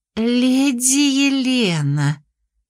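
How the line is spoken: Ingratiating tone. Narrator (Russian): вкрадчиво произнесла Феникс

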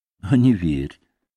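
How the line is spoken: Gentle chuckle, gentleman. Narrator (Russian): ласково усмехнулся джентльмен

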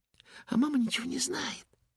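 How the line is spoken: Conspiratorial whisper. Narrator (Russian): заговорщическим видом прошептала она

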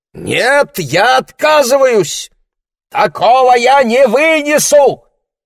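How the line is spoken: Shout. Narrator (Russian): закричал Ларри

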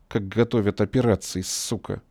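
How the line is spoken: Angry inner thought. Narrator (Russian): зло подумал ликвидатор

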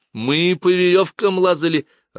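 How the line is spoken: Joyful. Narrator (Russian): радостно произнес Кай

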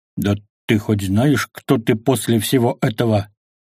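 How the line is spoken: Growled. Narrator (Russian): зарычал

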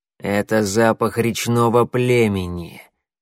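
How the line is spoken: Growl close to ear. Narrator (Russian): прорычал над его ухом коготь

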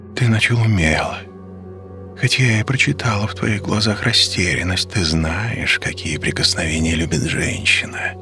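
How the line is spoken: Quiet and smooth. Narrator (Russian): говорила она тихо и плавно

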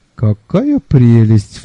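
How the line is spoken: Sighing. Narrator (Russian): вздохнул я

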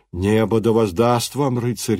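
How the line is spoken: Exclamation. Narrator (Russian): воскликнул он

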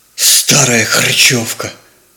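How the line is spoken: Nervous, angry whisper. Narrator (Russian): прошептал нервно и зло

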